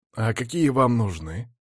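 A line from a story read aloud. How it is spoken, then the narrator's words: Animated. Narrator (Russian): оживился Рашт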